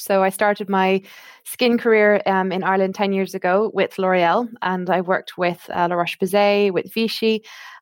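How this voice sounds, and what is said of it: Irish accent. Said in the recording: “You can probably tell from my accent, I am Irish.”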